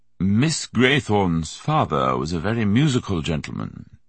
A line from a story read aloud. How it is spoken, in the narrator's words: he said in his butler voice